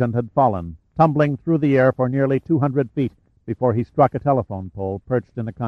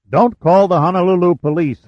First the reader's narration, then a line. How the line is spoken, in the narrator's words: Hunter bellowed